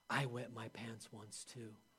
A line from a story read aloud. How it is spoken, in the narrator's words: Susie whispers back